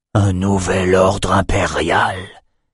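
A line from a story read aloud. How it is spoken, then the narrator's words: Breathed whisper. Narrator (French): souffla-t-il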